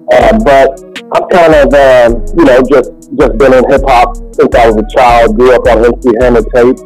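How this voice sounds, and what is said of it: Kentucky accent. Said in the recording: “As you can tell from the accent, I come from Kentucky.”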